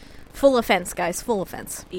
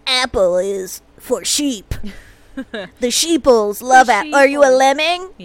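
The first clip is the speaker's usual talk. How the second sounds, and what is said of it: Impersonation of an Android fuckboy. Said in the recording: “my impersonation ... of like ... A real fuckboy? ... An android fuckboy?”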